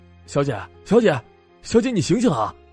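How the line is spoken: Calling out. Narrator (Chinese): 蓝衣青年开始叫他

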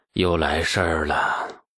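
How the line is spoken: Muttering sigh. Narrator (Chinese): 李世民…喃喃叹气

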